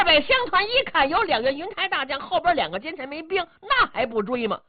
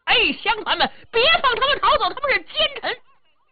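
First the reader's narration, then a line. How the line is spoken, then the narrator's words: Loud shouting. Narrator (Chinese): 裴头高声喊嚷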